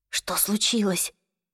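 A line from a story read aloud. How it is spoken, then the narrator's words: Whispered question. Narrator (Russian): шепотом спросила Клэри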